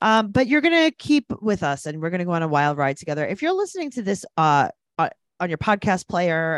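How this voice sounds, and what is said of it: Usual voice. Nothing is said of it.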